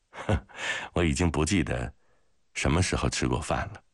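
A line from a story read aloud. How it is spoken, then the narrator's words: Tired, apologetic smile. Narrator (Chinese): 格里高里疲倦地抱歉地笑了笑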